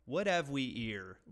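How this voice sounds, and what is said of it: Mock Cockney accent, dropped H. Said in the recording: “That sounds like straight Cockney ... the ones that take the fucking H off of everything ... That's how they say it.”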